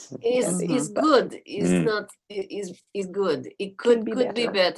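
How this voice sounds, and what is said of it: Put-on Russian accent. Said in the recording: “That's your cue to do a Russian accent.”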